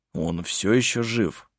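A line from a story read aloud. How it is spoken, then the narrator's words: Gloomy remark. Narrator (Russian): мрачно заметил Хейке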